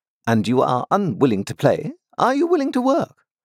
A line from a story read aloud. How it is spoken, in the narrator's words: said Miss Havisham impatiently